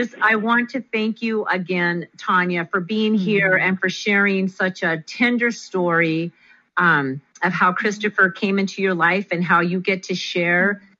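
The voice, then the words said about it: Choked-up, croaky voice. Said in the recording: “I have a frog in my throat now.”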